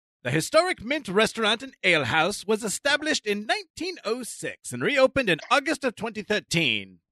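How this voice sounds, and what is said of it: Old-timey announcer voice. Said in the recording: “this in my old timey voice”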